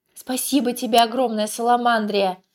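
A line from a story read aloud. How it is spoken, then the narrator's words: Young man shouting. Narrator (Russian): прокричал юноша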